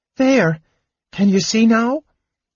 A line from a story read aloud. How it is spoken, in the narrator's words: he asked anxiously